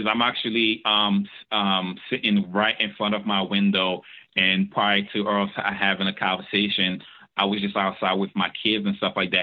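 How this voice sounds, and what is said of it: Foreign accent, not Philadelphian. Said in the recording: “you're not from Philly. You can hear that in the accent ... it's not a Philly accent ... Yours is inviting.”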